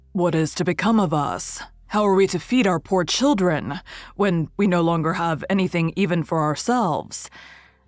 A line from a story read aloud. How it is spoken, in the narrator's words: he groaned and said to his wife